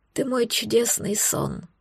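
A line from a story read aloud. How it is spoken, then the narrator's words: Tender murmur. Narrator (Russian): пробормотал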